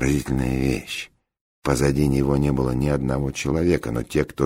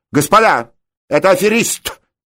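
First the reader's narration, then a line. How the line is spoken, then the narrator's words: Loud yelling. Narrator (Russian): громко заорал он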